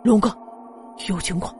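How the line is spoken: Quiet. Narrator (Chinese): 龙武回过头来，轻声的说道

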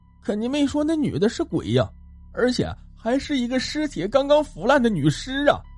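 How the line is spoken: Tearful speech. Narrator (Chinese): 阿克却哭着说道

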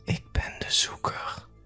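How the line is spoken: Whispered. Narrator (Dutch): Ze leunde naar mijn oor en fluisterde

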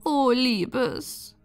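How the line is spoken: Sad small woman. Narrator (German): sagte die kleine Frau traurig

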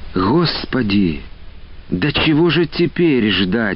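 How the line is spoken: Exclaimed. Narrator (Russian): воскликнула

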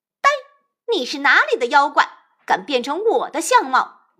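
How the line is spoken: Furious scolding. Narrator (Chinese): 孙悟空大怒，骂道

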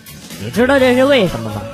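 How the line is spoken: Flat, indifferent. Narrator (Chinese): 他 淡淡的说

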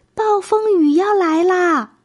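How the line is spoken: Urgent shout. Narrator (Chinese): 玛丽赶紧对着朋友们大叫

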